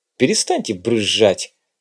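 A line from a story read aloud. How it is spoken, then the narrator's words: Irritated interruption. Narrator (Russian): раздраженно оборвал его Вадим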